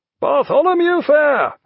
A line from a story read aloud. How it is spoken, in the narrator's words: shouted her captain